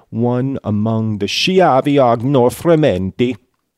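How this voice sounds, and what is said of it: Exaggerated put-on Italian accent. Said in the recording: “a ridiculous Italian accent”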